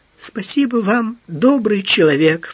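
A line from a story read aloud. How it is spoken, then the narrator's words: Sobbing, sniffling. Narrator (Russian): всхлипнула, сморкаясь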